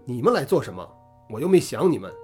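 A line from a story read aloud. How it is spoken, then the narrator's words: Angry. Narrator (Chinese): 愤怒地说道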